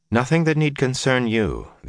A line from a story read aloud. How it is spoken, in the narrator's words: the Aes Sedai said calmly